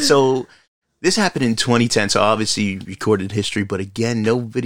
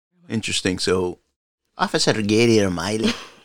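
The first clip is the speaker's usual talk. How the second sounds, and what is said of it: Weak put-on Irish accent. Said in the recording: “I always try to do this Irish accent; it never comes out quite so good.”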